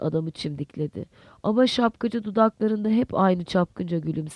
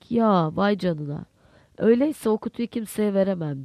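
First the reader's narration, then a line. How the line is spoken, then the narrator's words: Laughing. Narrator (Turkish): Lantier gülerek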